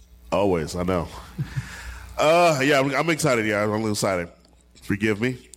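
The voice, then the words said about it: Low, congested nasal voice. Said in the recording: “My voice is terribly low. ... I'm fighting a nasal cold.”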